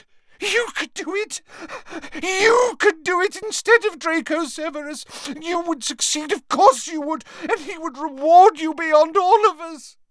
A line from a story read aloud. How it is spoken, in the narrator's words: her tears falling onto his chest, she gasped